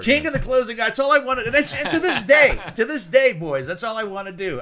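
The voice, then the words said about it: Southern American accent. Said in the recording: “In your southern accent”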